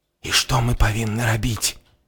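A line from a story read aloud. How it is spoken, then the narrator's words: Whispering. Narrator (Belarusian): прашаптаў Гары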